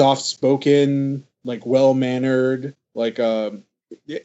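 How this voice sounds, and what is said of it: Usual voice. Nothing is said of it.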